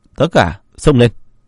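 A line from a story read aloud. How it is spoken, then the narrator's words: Furious loud shout. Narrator (Vietnamese): Hắn phẫn nộ hét lớn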